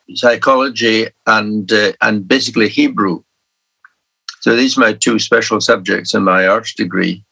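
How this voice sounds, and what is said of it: Beautiful Scottish Highland accent. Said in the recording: “certainly giving you a beautiful accent. Um, you've got a lovely voice.”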